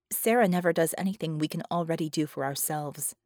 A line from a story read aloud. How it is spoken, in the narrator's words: Vickie said flatly